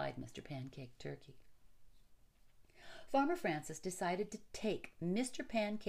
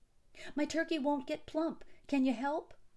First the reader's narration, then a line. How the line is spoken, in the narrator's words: pleaded Farmer Francis to the doctor